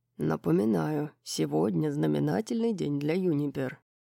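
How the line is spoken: Sly murmur. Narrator (Russian): пробормотал Хант, лукаво изогнув уголки губ

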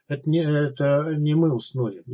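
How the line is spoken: Muffled, hollow. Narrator (Russian): глухо проговорил он

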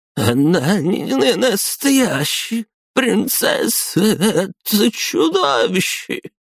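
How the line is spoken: Muffled heavy sobbing. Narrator (Russian): Маргарита уткнулась лицом в колени и зарыдала пуще прежнего

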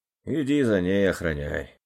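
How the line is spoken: Heavy sigh. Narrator (Russian): Тяжело вздохнув, обратился он

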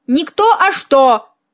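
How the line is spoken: Loud bark. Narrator (Russian): гаркнула я

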